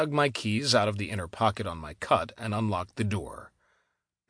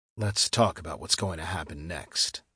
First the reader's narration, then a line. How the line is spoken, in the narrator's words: I said softly